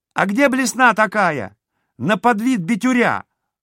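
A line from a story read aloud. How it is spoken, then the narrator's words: Shouting from another room. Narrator (Russian): орал Чудик из кладовой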